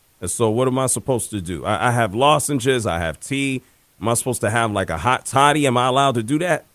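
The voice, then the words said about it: Sore, weak hoarse voice. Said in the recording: “My voice is just, it's sore. It's a little cooked. And so I may not have the oomph in my voice”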